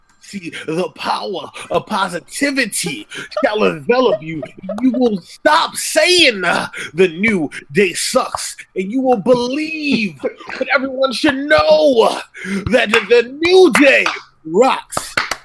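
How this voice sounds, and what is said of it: Imitates another person's voice. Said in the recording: “do his Big E impression. ... That's pretty good.”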